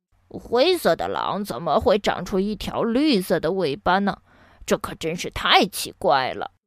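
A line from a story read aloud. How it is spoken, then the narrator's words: Muttering to itself. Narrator (Chinese): 它嘀嘀咕咕道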